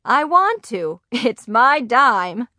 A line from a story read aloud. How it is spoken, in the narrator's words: Grandma laughed